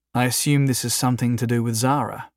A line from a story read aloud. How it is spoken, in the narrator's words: Jason asked in a calm, soft voice